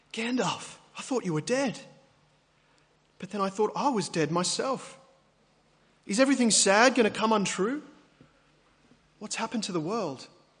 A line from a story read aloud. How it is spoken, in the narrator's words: At last, he gasped